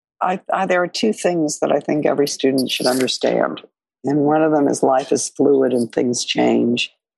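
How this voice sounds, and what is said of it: Hoarse voice with a cold. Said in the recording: “I apologize for my hoarseness and cold”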